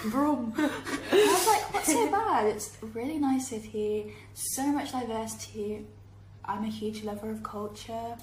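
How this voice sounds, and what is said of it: British accent. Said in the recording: “I wouldn't call myself British at all, even though my accent says differently.”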